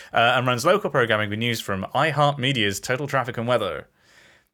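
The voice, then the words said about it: Radio announcer voice. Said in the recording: “I can't help but slip into the radio voice. I'm not even doing that on purpose.”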